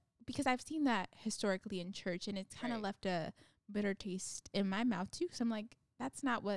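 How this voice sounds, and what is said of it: Usual voice. Nothing is said of it.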